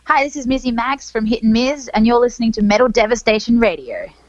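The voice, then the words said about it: Put-on American accent. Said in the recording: “Why do I put on an American accent when I do that?”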